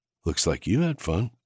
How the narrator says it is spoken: I said softly

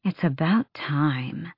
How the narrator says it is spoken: Asterin muttered

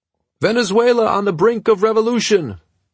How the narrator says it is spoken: yelled above the noise of the traffic, the honking horns and the milling people

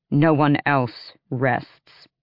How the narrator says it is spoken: Manon said coldly

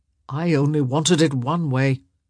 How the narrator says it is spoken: he growled

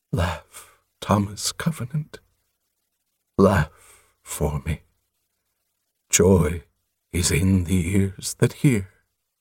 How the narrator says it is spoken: Softly, the giant said

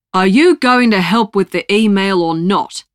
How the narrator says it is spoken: the old man barks

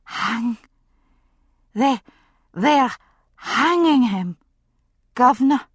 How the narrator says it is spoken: she gasped out

